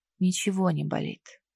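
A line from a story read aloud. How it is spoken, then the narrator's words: Barely audible. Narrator (Russian): добавил едва слышно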